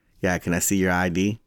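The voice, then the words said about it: Texan accent. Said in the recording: “the redneck Texan comes out of me ... listen to my accent. ... So it comes off really Texan.”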